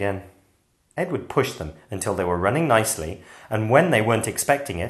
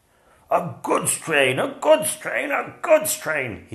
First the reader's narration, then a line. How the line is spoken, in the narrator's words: grumbled